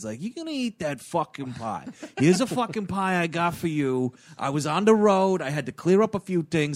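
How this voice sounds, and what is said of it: Menacing New York accent. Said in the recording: “the impression that you're doing is accurate ... his New York accent really starts coming out because it's like him playing evil”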